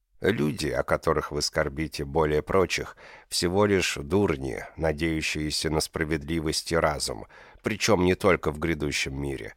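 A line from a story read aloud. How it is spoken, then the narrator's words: Plain. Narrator (Russian): сказал ему отец-генерал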